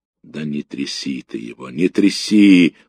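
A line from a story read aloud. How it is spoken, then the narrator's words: Weary. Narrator (Russian): устало сказал ефрейтор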